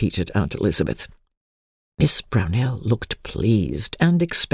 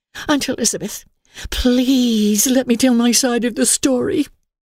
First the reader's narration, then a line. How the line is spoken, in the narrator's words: she pleaded